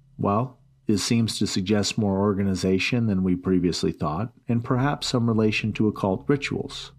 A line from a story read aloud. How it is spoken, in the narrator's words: I said